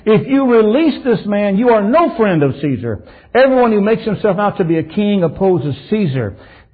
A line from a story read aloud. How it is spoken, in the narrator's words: the Jews cried out saying